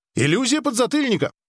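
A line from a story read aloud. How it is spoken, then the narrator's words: Cheerful. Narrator (Russian): весело сказал Ли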